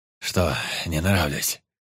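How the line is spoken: Malicious laughter. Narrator (Russian): злобно захохотал Никрит

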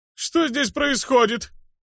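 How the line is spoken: Shrill voice, chubby man. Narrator (Russian): визгливый голос толстячка

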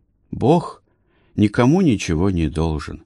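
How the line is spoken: Sighing. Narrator (Russian): вздохнул Барак

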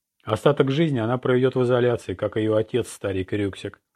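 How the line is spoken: Plain. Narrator (Russian): ответил комиссар

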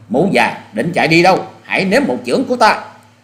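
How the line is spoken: Loud shout. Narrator (Vietnamese): Hoa Sĩ Kiệt quát to lên

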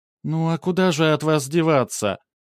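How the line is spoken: Mock sigh. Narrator (Russian): Она притворно вздохнула

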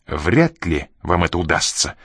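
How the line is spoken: Irritated, openly bad-tempered. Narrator (Russian): раздраженно ответил он, не скрывая дурного настроения

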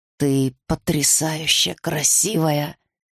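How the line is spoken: Slightly husky. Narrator (Russian): хрипловато сказал Арден

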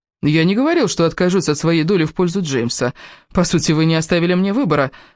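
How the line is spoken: Gloomy remark. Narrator (Russian): мрачно заметил Кевин

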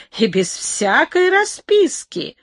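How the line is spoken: Old man's joyful tearful exclamation. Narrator (Russian): воскликнул старик, и на глазах его блеснули слезы радости

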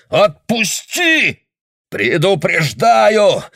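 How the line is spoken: Strained, unfamiliar-voiced shout. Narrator (Russian): кричал Гатри все еще сдавленным, не своим голосом

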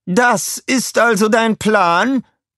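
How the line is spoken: Call. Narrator (German): rief sie

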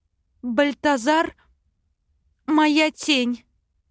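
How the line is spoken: Forced out, trembling voice. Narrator (Russian): Выдавила из себя дрожащим голосом

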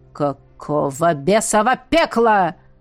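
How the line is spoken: Growled. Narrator (Russian): рыкнул Хордон

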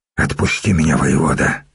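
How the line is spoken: Hoarse wheeze. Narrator (Russian): прохрипел сотник

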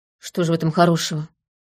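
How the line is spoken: Grumble. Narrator (Russian): буркнул лейтенант

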